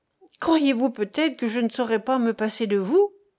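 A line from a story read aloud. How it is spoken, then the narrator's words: Exclamation. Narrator (French): s'écria-t-il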